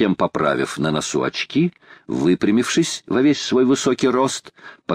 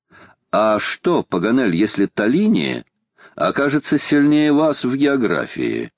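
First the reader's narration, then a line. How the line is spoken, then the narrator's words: Plain. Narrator (Russian): спросил Макнапс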